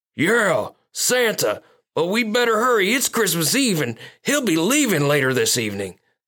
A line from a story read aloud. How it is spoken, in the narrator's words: Snowball exclaimed